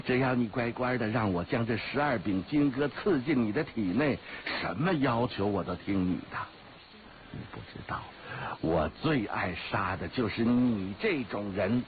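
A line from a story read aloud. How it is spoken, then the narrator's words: Laughing. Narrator (Chinese): 黑衣人笑着说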